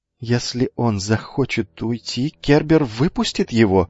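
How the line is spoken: Trembling voice. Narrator (Russian): дрогнувшим голосом сказал Лукавый

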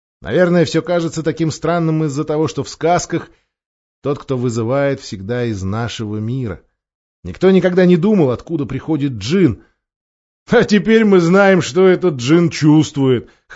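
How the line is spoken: Chuckling. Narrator (Russian): хохотнул Эдмунд

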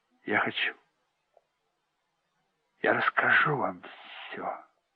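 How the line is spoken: Whispering. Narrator (Russian): прошептал Денни

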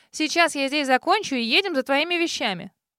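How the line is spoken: Commanding young woman. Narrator (Russian): Голосом, не терпящим возражений, воскликнула девушка

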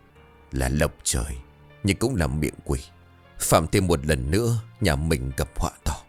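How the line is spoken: Hoarse, hissing old voice. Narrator (Vietnamese): Ông chỉ đáp vỏn vẹn một câu, giọng khàn như gió rít qua hàm răng kẹp tàn hương

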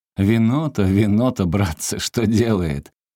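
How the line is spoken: Sailors laughing, pitying. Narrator (Russian): матросы хохотали и жалостно говорили

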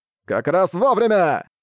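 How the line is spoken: Shouted. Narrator (Russian): выкрикнул Хэмин Ву

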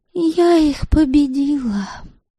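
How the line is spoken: Sleepy voice. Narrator (Russian): сонным голосом сообщила Девляна

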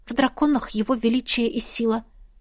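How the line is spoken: Mutter. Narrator (Russian): пробормотала я

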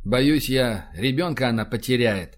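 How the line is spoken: Sighing. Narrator (Russian): вздохнул Рашин

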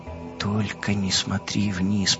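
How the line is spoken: Whispered to herself. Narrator (Russian): прошептала себе

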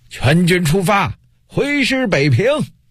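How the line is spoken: Powerful loud shout. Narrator (Chinese): 运丹田之气，大声喊道

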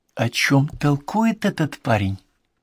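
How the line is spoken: Whisper. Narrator (Russian): шепнул он Конан Дойлу

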